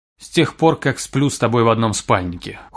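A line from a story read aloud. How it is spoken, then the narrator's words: Cold retort. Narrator (Russian): холодно парировала Тири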